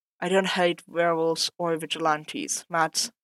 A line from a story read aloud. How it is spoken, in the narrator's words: Foggy just sighed and said